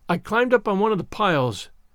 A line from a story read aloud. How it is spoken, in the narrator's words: explained Anne wearily